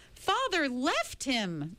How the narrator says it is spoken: Meg cried

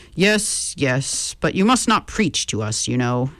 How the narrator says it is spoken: said Tara, a little testily

